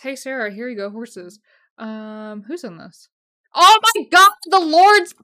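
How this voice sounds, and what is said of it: Excited yelling. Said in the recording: “I'm yelling. ... I need to turn it down.”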